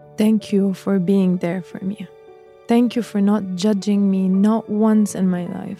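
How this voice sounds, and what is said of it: Shaky, breaking voice. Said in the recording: “my voice is cutting because I'm anxious”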